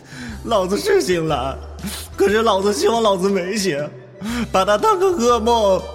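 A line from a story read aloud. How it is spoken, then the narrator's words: Tearful, indignant. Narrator (Chinese): 冯耀带着哭腔，愤愤的说着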